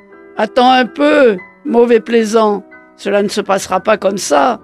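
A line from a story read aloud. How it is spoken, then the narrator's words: Furious shout. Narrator (French): crie furieusement Madame Baleine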